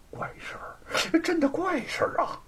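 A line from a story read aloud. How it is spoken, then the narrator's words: Hearty laughing. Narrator (Chinese): 吴承恩是哈哈的笑出声来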